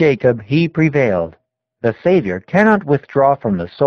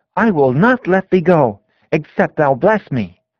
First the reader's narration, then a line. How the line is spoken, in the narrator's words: He cried